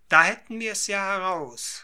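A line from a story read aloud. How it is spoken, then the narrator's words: Called out. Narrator (German): rief endlich der Engländer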